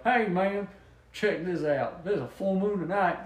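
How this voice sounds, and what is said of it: Put-on Southern accent. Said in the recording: “He's got to have a southern accent, otherwise it doesn't work.”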